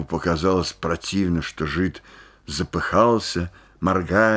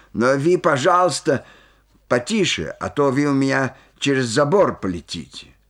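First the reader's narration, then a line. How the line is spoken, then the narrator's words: Angry shout. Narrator (Russian): рассердился и тоже крикнул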